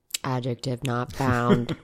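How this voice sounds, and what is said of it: Robot voice. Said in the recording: “talk like a robot”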